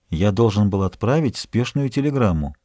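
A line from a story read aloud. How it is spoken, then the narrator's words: Quiet reply. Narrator (Russian): Он тихо ответил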